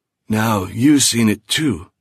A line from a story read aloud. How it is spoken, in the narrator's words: wheezed